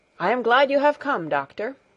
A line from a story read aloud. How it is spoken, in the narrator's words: exclaimed Herr Sesemann